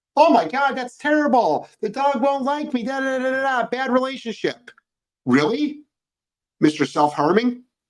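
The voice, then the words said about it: Sarcastic mocking tone. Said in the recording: “I'm being sarcastic there.”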